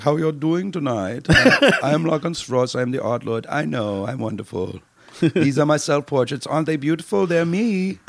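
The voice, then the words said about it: Put-on German accent. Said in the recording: “spoke in a German accent”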